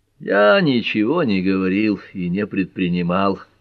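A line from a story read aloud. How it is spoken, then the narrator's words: Almost gentle. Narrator (Russian): почти мягко продолжил Боярд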